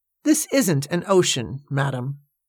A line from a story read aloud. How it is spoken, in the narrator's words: said Joshua McLaren, teeth clenched firmly around the stem of his pipe